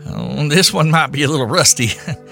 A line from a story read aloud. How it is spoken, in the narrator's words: he chuckled nervously